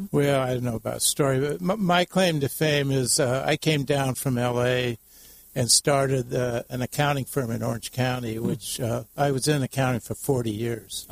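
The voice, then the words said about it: Radio voice. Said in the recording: “you got a radio voice”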